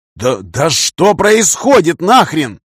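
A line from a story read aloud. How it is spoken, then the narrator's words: Shouting. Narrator (Russian): крикнул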